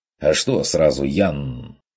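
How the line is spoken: Snapping hunter. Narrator (Russian): огрызнулся охотник

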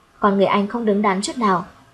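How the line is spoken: Slow and soft. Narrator (Vietnamese): Lâm Ngôn Hy chậm rãi nhỏ nhẹ nói

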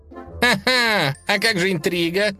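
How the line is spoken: Cheerful reminder. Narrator (Russian): весело напомнил дружок

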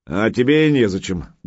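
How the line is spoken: Rude, curt retort. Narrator (Russian): грубо отрезал новый Санькин тренер

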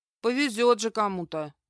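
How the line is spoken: Grumble. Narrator (Russian): буркнула моя тень

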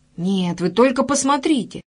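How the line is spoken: Girl's exclamation, changed tone. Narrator (Russian): снова воскликнула девочка, но уже с другой интонацией

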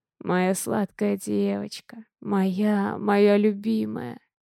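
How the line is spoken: Hoarse whisper. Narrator (Russian): Хрипло шепчет Дима

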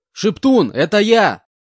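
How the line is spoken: Shouting at top of lungs. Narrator (Russian): кричал я во всю глотку

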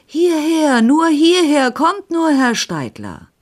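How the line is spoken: Shouting. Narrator (German): den Kreuzwirt erkannte, der mir zuwinkte und schrie

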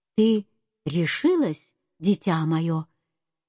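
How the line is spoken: Tender address. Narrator (Russian): Она нежно обратилась

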